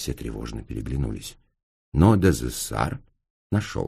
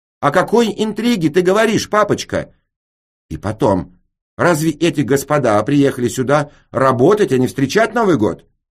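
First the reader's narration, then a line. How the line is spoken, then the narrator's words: Loud question. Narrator (Russian): Мисс Ижени громко спросила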